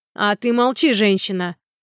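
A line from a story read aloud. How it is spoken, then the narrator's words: Barked, mustached man. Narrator (Russian): гаркнул в ответ усач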